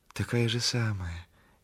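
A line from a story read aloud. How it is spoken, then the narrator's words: Gentle, meek. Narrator (Russian): говорит Валька ласково, кротко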